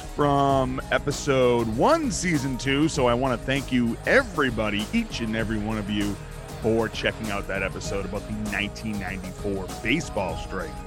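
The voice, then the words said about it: Boston accent, dropped R's. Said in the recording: “If you can't tell by my accents, I cannot pronounce my letter R ... I'm from Boston”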